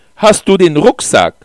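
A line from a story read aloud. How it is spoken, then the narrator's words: Loud question. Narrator (German): fragte ich laut, damit sie mich hören konnte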